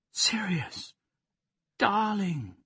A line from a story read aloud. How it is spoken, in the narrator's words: cried, surprising herself no less than him